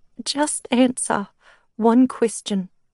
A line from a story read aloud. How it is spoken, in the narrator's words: she said, her voice quivering as she spoke